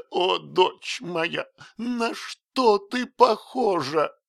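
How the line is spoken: Sobbing speech. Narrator (Russian): тот мог только проговорить, всхлипывая

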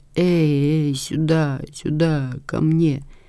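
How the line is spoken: Moaning, mumbling in sleep. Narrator (Russian): Он только застонал во сне и замахал руками, бормоча

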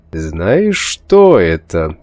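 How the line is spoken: Theatrically sinister question. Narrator (Russian): спросил он картинно зловещим голосом

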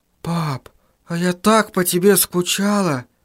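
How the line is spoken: Whisper. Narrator (Russian): прошептала

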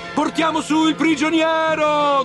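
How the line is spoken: Crowd shouting. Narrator (Italian): gridavano

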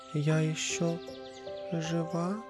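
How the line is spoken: Very weak voice. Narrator (Russian): она сказала совсем слабеньким голосом

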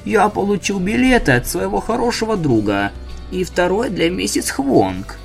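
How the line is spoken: Creaky voice. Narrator (Russian): скрипучим голосом заметил доктор Мариатти

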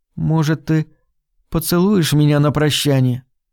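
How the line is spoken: Hesitant, uncertain. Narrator (Russian): Она заколебалась на мгновение и неуверенно сказала

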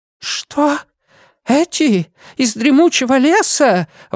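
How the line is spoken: Trembling exclamation. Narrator (Russian): воскликнул мистер Тоуд, начиная дрожать

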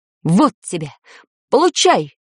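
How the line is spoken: Man's shout. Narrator (Russian): крикнул мужчина

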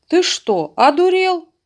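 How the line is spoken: Shouting. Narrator (Russian): крикнул ветеринар

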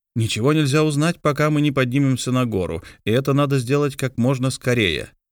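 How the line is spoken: Plain. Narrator (Russian): ответил инженер

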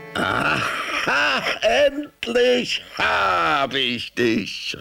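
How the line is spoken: Fox shouting, roaring laughter. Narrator (German): rief der Fuchs und brüllte vor Lachen

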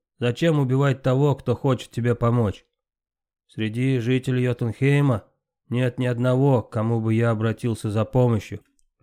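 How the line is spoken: Grumbling thunder god. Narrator (Russian): проворчал бог грома

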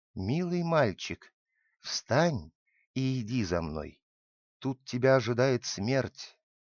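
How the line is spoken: Whisper. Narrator (Russian): шепнула

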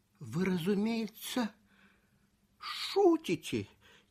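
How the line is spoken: Quiet. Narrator (Russian): тихо сказал Симона

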